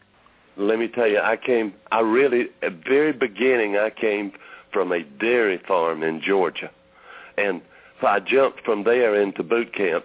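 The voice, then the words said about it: Southern US accent from Georgia. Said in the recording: “exactly where your accent is from. What part of the South did you grow up in? ... they never let me really lose that accent”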